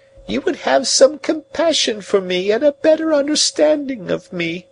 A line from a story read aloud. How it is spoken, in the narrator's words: she pleaded